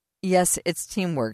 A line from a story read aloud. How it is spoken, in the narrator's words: she said